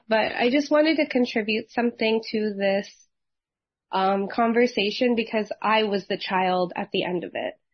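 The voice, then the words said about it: Rough, hoarse voice. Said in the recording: “sorry for my voice. It's a little rough”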